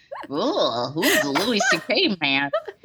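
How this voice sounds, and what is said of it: Imitates another person's voice. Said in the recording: “that my impression of Biden”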